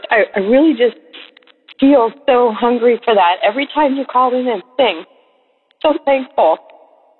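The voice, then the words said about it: Choked-up, emotional voice. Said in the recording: “I'm all choked up.”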